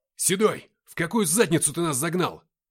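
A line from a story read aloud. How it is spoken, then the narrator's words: Shout, own voice unheard. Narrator (Russian): крикнул я, не услышав своего голоса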